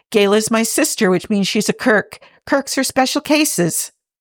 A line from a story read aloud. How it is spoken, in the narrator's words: Jimmy says cheerfully